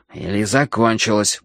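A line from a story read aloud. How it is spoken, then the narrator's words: Grumble. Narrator (Russian): буркнул я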